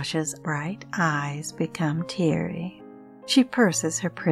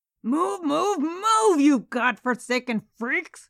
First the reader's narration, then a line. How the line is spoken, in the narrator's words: screams the round, dumpy little man, his face now as red as his trousers